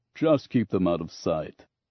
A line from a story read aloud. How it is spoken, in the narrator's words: Grunts chuckled, then said